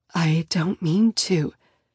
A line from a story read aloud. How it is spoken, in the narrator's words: I whisper